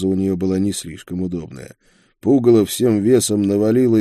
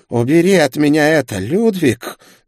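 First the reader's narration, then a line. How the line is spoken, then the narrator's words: Angry hiss. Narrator (Russian): зло прошипела она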